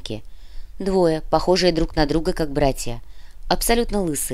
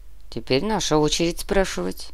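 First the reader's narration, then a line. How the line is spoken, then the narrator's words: Quiet voice. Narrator (Russian): негромко произнес Нур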